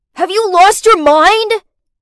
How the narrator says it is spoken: he shouted

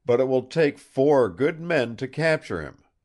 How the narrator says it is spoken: he telephoned excitedly

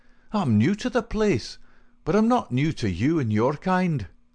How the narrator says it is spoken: cried McMurdo in cold fury

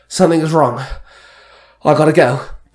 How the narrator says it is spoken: Danny gasped

